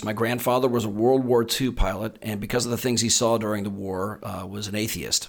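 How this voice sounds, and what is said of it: Slight Texan accent. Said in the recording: “I'm originally from Texas. ... Your accent gives you away a bit. You have a little bit of a ... I've eradicated most of it.”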